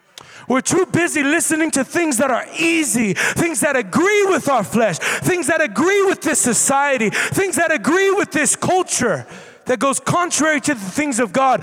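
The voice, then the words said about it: Loud, impassioned yelling sermon. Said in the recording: “I'm yelling ... I seem angry ... I just get a little bit passionate”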